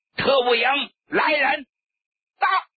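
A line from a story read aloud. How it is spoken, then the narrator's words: Loud shouted order. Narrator (Chinese): 谭平山 大声冲着室外喊道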